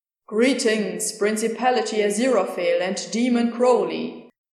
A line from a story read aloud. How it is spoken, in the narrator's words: Gabriel booms, giving their names proper enunciation